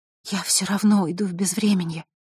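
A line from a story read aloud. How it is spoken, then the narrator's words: Whisper. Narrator (Russian): прошептала Василиса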